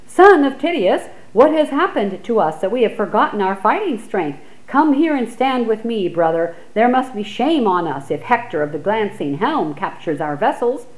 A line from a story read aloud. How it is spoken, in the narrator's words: Odysseus cried out to Tydeus' son Diomedes